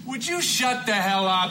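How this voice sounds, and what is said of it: Angry yelling. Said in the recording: “I'm yelling at you”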